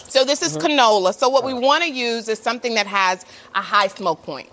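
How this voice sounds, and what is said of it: Texas accent. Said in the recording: “You heard that Texas accent about to come out.”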